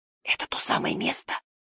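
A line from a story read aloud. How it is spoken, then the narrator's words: Whisper. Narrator (Russian): прошептал он Барде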